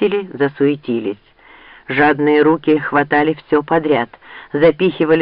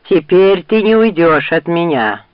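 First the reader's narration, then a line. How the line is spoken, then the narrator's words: Growl. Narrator (Russian): прорычал он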